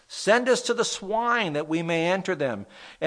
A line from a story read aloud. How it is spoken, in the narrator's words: the demons begged him